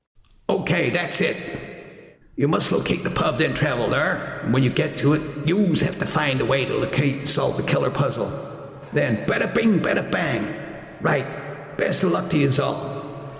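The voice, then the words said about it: Man's voice with New York accent. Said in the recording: “The voice has suddenly changed to a man ... adapting a sort of a New York accent”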